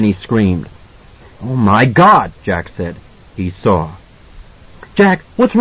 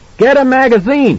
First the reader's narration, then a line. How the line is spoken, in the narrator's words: he yelled over his shoulder